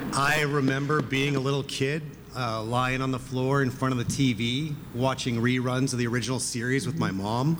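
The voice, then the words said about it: Canadian accent. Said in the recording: “if my accent had not already given me away as a Canadian”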